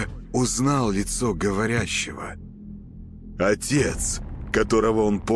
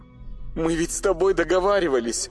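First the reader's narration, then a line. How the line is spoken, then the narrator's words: Ringing high voice. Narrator (Russian): Звенящим высоким голосом ответил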